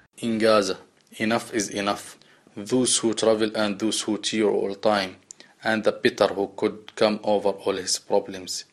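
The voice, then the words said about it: Thick foreign accent. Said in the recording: “he does have a thick accent, which he does apologize for”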